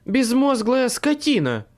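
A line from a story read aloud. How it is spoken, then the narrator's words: Shrieking. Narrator (Russian): взвизгнула Мэйв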